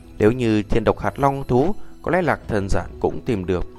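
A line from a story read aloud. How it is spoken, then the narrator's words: Hesitant speech. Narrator (Vietnamese): chần chừ một chút mới nói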